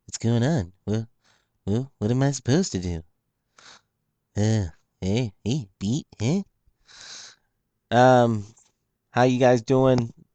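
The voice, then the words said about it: Imitates another person's voice. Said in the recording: “That was my impression of Benny Aaron”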